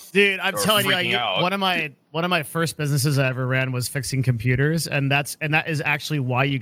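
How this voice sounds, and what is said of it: Usual voice. Nothing is said of it.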